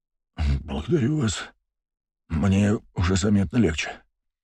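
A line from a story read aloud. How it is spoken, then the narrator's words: Muttered. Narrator (Russian): пробормотал Митрофанов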